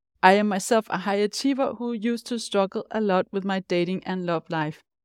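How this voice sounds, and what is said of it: Danish accent in English. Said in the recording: “as you might be able to hear from my accent, I am Danish”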